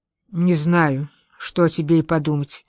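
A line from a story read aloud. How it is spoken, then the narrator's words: Plain. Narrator (Russian): ответила женщина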